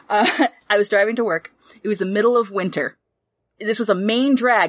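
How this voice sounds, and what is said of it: Regional New England accent returning. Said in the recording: “my accent shifting back”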